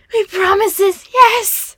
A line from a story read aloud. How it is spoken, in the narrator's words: Gollum cried